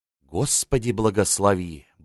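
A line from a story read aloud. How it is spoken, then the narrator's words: Muttered. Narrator (Russian): бормотнул поэт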